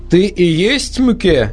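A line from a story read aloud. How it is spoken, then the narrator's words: Loud question. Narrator (Russian): громко спросил Мартин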